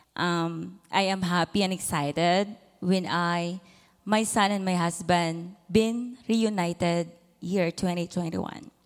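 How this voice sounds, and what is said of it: Filipino-accented English. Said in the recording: “with my Filipino accent”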